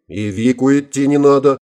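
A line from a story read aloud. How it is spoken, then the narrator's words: Loud laughter. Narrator (Russian): расхохотался Гомес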